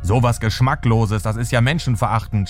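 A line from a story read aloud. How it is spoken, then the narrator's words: Shouting. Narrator (German): schreit er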